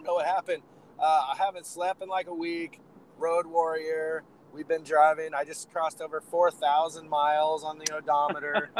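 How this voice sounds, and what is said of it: Hoarse, crumbly tired voice. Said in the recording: “my voice sounds ... got a little got a little crumble crumble going on there”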